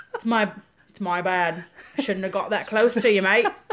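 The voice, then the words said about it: Weak put-on Australian accent. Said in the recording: “Don't do a very good Australian accent, especially not this late”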